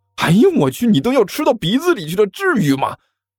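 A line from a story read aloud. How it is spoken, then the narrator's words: Yelling. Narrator (Chinese): 甘球嚷道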